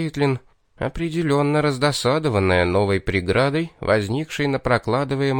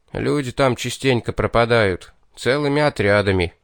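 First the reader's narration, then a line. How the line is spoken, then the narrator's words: Muffled dull reply. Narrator (Russian): глухо ответствовал Гнат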